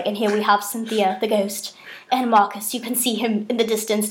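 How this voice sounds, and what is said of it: Put-on British accent. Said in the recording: “I would do the British accent too.”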